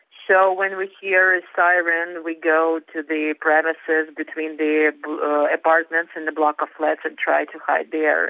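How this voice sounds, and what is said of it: Shaky, tired voice. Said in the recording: “my voice is shaky because I'm too tired of this”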